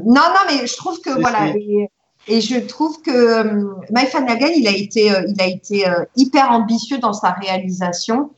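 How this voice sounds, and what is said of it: Southern French accent. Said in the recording (French): “votre accent du sud”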